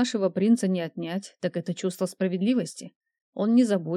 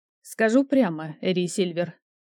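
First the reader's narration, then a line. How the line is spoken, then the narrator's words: Dry. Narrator (Russian): сухо сказала она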